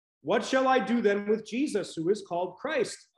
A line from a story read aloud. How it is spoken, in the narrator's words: Pilate asked